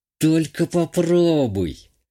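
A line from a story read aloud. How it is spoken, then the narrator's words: Hissed through teeth. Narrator (Russian): Цежу сквозь зубы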